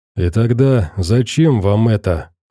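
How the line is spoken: Sighing. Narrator (Russian): вздохнул Дубровский

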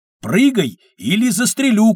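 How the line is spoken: Shouting. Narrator (Russian): крикнул он

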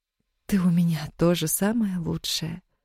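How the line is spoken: Quiet reply. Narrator (Russian): тихо ответила Яна

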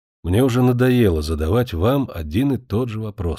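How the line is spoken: Plain. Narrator (Russian): сказал он

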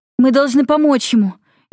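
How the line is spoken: Frightened young woman. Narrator (Russian): испуганно сказала девушка

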